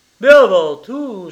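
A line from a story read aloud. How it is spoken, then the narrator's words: Exclamation. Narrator (French): s'écria l'avocat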